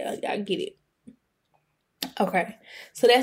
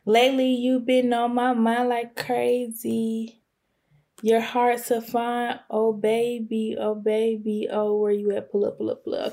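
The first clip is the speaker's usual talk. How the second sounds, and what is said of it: Imitates another person's singing voice. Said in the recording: “that's my impression of Cash... That's my impression of the song. Sorry for the vocals, not really too good today.”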